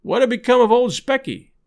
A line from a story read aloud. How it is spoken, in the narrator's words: a herd asking loudly